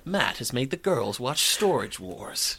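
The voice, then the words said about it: Imitates a TV narrator's voice. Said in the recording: “That's a really good impression of the narrator.”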